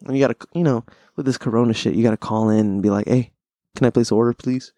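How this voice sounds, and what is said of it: Usual voice. Nothing is said of it.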